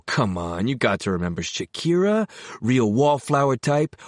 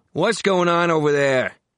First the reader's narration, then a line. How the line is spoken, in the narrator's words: the old guy on the other side of the curtain called out